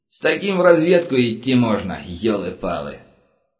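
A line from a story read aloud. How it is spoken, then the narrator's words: Sighing. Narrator (Russian): Анатолий вздохнул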